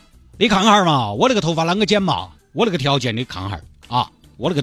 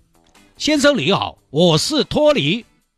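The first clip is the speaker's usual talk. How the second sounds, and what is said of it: Put-on Cantonese-tinged Hong Kong-Taiwan accent. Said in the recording (Chinese): “听你那个口音来自广东啊？...你那口港台腔真的是”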